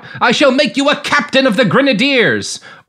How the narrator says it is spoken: Louis Napoleon blurted out

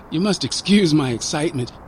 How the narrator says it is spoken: said Shumway

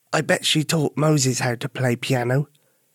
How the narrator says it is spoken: Albert whispered to Suzi

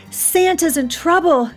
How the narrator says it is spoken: she cried

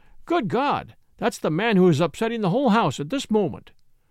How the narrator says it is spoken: exclaimed the landlord

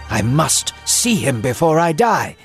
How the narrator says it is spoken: Israel exclaimed

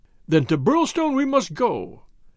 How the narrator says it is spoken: cried MacDonald

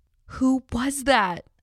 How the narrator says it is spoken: I cried

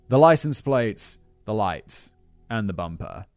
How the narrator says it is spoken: Fabio … he coldly replied

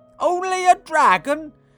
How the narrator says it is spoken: cried his father

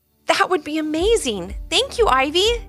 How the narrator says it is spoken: exclaimed Jolie, so excited to learn from her friend

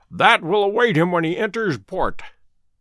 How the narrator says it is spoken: said he, chuckling

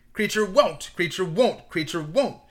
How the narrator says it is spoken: croaked the house elf, quite as loudly as Uncle Vernon

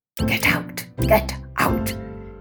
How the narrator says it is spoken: hissed the tomcat

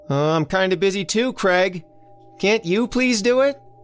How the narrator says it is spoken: Elsie hollered back

